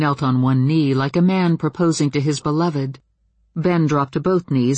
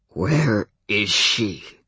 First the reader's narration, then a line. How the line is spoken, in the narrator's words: His voice was guttural and oddly accented from speaking out of a mouth meant for howling rather than talking